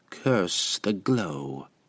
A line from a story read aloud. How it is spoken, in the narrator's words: she muttered